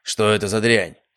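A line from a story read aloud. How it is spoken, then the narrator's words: Guard's rather rude question. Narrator (Russian): довольно грубо спросил охранник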